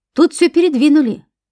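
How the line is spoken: Shouted from another room. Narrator (Russian): крикнул из спальни оперативник

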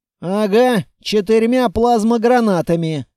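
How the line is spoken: Wry grunt. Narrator (Russian): хмыкнул

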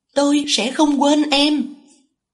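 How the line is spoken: Loud, straining. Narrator (Vietnamese): Tôi bị một bàn tay vô hình đè mạnh không thể cử động, chỉ có thể lớn tiếng nói

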